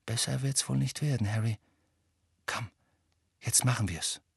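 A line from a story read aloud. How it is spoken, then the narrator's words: Quiet. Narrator (German): sagte Hermine leise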